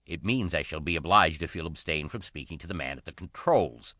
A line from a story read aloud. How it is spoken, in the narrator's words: snapped Nat